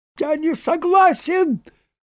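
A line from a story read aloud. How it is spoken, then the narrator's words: Piercing squeak. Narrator (Russian): пронзительным голосом запищал Саранин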